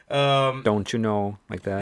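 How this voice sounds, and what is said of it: Put-on Minnesotan accent. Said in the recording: “they all talk like that too ... what's that accent I like to do all the time? ... with Minnesotans”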